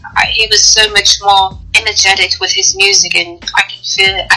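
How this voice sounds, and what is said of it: Speaks with a noticeable accent. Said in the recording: “I love your accent.”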